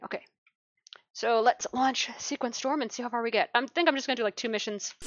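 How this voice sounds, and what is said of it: Slightly hoarse voice. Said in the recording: “I sound a little bit hoarse”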